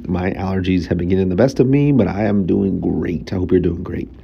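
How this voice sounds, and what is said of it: Nasal, congested voice. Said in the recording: “I sound nasally,”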